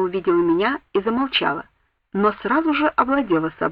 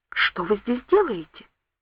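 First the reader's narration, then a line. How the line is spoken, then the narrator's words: Whispered question. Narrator (Russian): спросила шепотом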